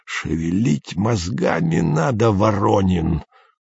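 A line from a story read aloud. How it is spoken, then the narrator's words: Hoarse wheeze. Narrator (Russian): просипел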